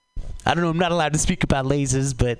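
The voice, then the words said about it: Imitates another person's voice. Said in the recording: “oh, that was Woody Allen. I don't know why I did Woody Allen. You ever not practice an accent and then you do Woody Allen accidentally? ... that was bad”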